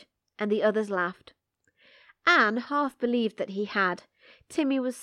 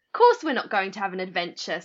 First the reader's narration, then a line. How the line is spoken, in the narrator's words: said Dick scornfully